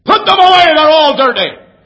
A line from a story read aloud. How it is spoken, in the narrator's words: he yelled as only he could yell